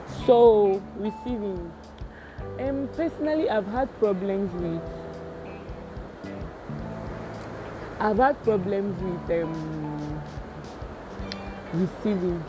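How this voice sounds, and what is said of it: Raised, louder speaking voice. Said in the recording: “I raised my voice because it's raining”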